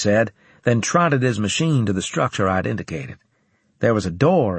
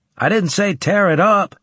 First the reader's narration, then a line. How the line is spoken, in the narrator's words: shouted after him